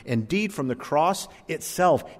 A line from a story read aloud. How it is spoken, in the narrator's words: he cried out